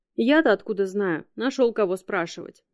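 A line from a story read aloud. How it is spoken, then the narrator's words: Lazy young woman. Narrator (Russian): лениво отозвалась девушка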